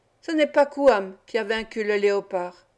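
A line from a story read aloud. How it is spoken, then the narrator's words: Sneering. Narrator (French): Les Oulams ricanèrent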